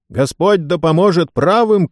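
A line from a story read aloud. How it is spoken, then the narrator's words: Shouting. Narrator (Russian): крикнул сэр Брайан Фитцуильям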